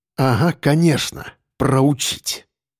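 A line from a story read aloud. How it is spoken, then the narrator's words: Through gritted teeth. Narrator (Russian): процедил Федор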